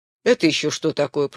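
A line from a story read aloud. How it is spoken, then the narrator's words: Muttering. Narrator (Russian): пробурчал капитан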